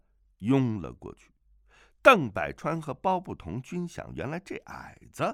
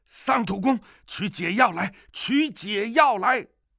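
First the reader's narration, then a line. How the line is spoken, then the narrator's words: Many people shouting. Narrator (Chinese): 周围十余人叫道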